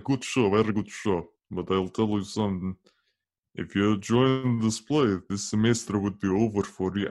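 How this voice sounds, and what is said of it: Put-on Russian accent. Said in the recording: “I am kind of doing a Russian accent right now because that's kind of what people hear when they hear my dad”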